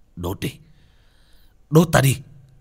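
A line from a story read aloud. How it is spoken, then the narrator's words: Roaring in agony. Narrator (Vietnamese): Bác cổ gầm thét lên đau đớn dữ tợn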